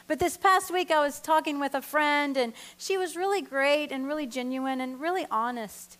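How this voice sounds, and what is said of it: Noticeable non-local regional accent. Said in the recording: “I'm not from around here. I don't know if my accent gives it away ... Texas was my birthplace”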